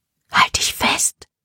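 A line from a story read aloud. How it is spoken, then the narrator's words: Whispered. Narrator (German): flüsterte Libby Serena zu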